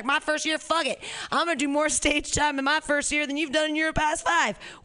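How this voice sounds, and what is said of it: Put-on Southern American accent. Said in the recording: “I gave you a southern accent”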